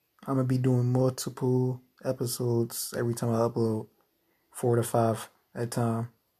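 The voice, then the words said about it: Scratchy, hoarse voice. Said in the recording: “my voice is a little scratchy, it's changing up, but it's because I've been yelling all day”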